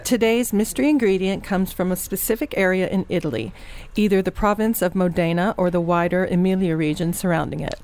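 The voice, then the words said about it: Radio presenter voice. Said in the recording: “put on my radio voice.”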